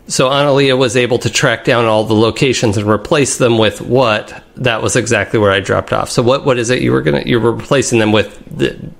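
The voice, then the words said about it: Imitates another person's voice. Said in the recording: “I'll do my best Nick impression.”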